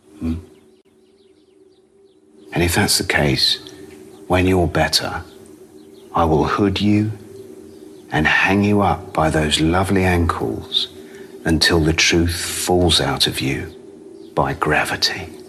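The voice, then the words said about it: Sinister British accent. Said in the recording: “sinister aplomb ... a British accent”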